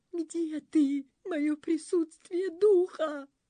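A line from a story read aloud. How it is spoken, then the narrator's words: Whimpering. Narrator (Russian): захныкал Пиф-Паф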